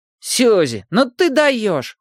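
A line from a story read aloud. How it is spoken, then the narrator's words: Exclaimed. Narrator (Russian): воскликнула подружка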